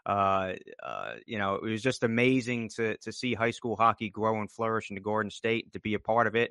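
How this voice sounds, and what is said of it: Noticeable regional American accent. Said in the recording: “we can hear a bit of an accent”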